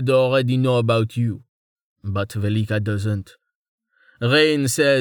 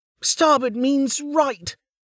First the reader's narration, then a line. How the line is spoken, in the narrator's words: Dozer exclaimed